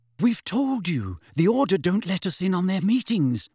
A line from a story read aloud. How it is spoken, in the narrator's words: said Hermione nervously